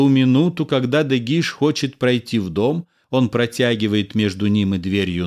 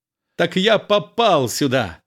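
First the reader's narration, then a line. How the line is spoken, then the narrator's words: Laughing cheerfully. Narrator (Russian): Весело смеясь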